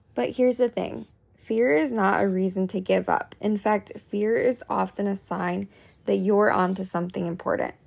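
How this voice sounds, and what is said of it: Weak, fading voice. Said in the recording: “my voice is like going away”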